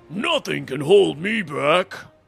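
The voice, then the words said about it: Poor impression of Alistar the Minotaur. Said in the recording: “my terrible impersonation”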